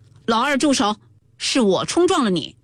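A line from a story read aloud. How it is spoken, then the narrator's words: Shouted. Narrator (Chinese): 贾云叫道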